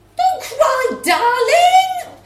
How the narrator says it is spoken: mum shouted

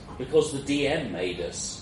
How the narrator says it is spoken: said

